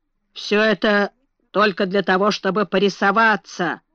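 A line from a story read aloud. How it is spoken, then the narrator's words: Grumbling. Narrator (Russian): бурчал благородный лорд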